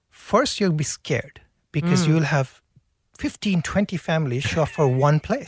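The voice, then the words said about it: Foreign accent. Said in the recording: “given your accent”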